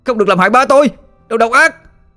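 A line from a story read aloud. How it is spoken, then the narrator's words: Sudden scream. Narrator (Vietnamese): Chợt có giọng ai đó hét lên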